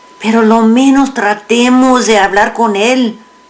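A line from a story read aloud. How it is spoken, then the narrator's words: Pleading. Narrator (Spanish): suplicó Narciso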